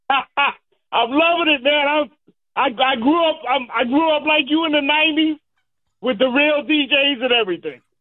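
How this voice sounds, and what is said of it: Hoarse, worn-out voice. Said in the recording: “I lost my voice because I'm so yelling.”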